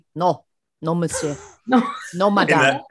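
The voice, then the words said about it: Put-on French accent. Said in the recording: “In that French accent, exactly. Perfect.”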